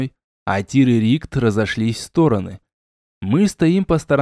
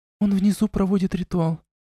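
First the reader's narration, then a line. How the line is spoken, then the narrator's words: Trembling voice. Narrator (Russian): ответила Ирана дрожащим голосом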